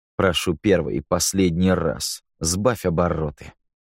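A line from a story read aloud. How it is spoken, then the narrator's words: Through gritted teeth. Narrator (Russian): сквозь зубы процедил Рико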